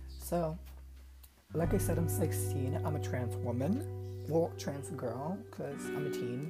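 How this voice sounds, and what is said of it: Puerto Rican accent in English. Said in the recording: “I'm from Puerto Rico, so if my accent is a little annoying, that's why.”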